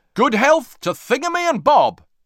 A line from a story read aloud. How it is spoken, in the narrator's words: cried the whole of Moomin Valley